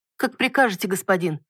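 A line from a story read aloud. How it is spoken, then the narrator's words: Maid babbling obsequiously. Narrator (Russian): подобострастно пролепетала служанка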